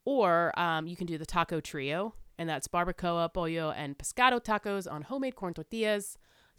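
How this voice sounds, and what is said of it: Slight put-on accent. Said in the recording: “Do you like how I'm trying to spit that little accent out there?”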